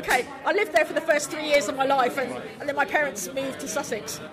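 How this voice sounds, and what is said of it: English accent. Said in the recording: “Welsh heart, Welsh blood, English accent.”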